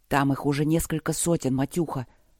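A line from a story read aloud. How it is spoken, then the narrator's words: Whispering. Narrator (Russian): шепотом поделился он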